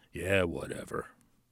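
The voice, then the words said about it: Deep-voiced imitation of Reynolds. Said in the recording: “he has a really deep voice.”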